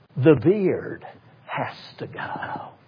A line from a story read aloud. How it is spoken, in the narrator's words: She whispered in my ear